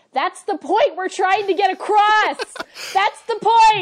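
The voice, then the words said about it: Yelling, raised loud voice. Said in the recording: “I'm yelling... you're yelling”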